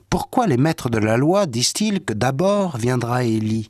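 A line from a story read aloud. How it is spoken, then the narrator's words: Plain. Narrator (French): Jésus leur répondit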